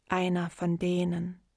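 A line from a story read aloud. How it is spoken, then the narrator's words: Calm. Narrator (German): sagte sie ruhig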